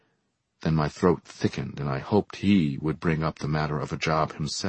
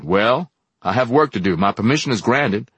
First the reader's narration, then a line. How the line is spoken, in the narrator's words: he looked at me impatiently and said